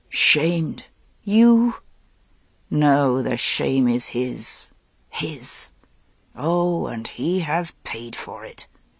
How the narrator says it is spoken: he muttered through his kisses

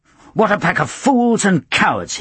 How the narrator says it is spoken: he cried

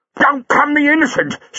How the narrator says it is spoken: said Buller furiously

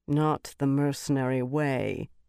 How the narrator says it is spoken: Birgitta said dryly

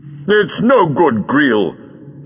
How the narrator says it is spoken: shouted the doctor

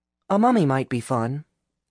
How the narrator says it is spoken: Alice said kindly

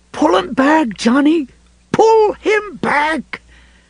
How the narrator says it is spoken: Ralph screaming

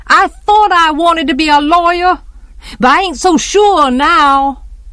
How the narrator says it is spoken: Jem yelled after him

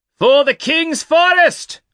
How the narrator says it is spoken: he yelled

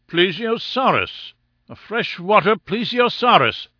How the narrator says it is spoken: cried Summerlee

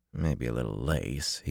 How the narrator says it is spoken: he muttered

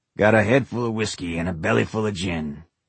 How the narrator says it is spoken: Dave sang in his rasping voice

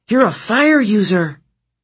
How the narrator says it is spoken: Nissa cried

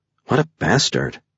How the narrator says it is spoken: Mercury muttered under her breath

